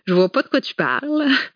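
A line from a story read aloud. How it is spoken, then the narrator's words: Sneering laugh. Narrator (French): ricana Freddy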